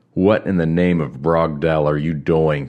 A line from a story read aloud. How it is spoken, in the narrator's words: Krell roared